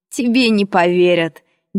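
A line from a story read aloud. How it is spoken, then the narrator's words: Insolent laugh, highlander. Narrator (Russian): дерзко засмеялся горец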